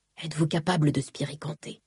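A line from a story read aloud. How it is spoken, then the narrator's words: Asked very quietly. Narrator (French): demanda-t-il tout bas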